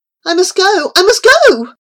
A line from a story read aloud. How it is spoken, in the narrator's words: she cried